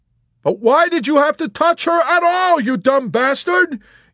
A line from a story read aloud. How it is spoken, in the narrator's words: Yossarian shouted